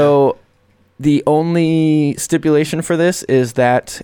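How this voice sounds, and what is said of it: Usual voice. Nothing is said of it.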